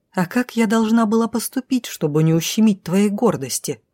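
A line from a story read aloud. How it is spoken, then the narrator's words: Angry hiss. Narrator (Russian): прошипело зло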